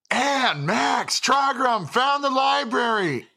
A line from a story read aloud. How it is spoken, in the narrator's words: shout